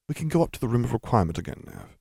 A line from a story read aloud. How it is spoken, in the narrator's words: he murmured